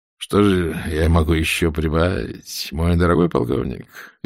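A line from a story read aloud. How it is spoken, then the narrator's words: Lazy, through clenched teeth. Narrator (Russian): лениво процедил он сквозь зубы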